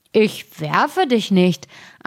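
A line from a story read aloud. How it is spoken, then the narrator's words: Grumbling. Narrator (German): antwortete der erste und brummte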